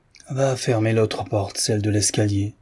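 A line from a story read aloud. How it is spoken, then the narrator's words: Old man, after long sigh. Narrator (French): dit le vieillard après un soupir prolongé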